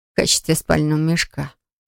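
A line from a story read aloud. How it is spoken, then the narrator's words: Mumbled. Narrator (Russian): пробормотала Флора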